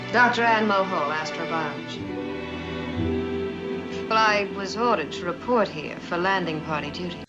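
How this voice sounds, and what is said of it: Transatlantic accent, regal British-like vowels. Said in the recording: “her sort of transatlantic dialect ... Transatlantic is a made-up accent created in the 30s and 40s by American studios to have more of a regal British sound. Not quite exactly British, not quite exactly American. Transatlantic, somewhere in the middle ... she's really leaning into these kind of vowels”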